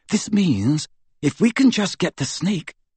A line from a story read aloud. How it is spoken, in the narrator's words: whispered Hermione